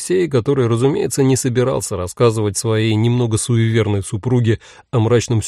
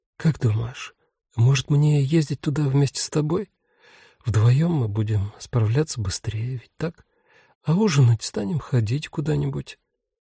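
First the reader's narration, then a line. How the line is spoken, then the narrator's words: Whispering in ear. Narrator (Russian): жена прошептала на ухо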